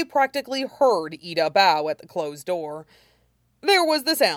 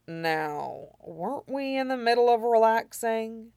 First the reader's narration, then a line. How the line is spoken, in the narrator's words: he murmured against his knuckles